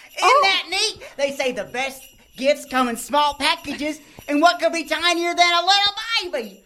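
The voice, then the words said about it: Baby character with southern accent. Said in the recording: “you kind of sound like me ... with the southern accent”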